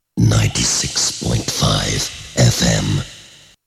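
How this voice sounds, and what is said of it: Very deep voice. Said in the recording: “that is a very deep voice.”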